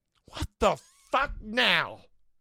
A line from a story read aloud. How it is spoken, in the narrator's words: I replied angrily